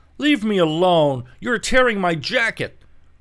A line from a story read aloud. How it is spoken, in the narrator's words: cried the unhappy victim